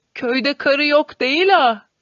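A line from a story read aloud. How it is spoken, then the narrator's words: Ringing loud shout. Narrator (Turkish): diye bağırışı ortalığı çınlatıyordu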